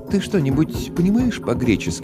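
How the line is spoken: Fairly calm. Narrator (Russian): достаточно спокойно спросила Мадж

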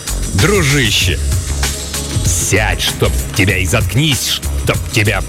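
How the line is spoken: Angry growl. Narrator (Russian): прорычал его агент по соцобеспечению

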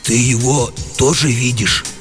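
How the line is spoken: Confused whisper. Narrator (Russian): растерянно спросил комендант у сторожа все еще шепотом

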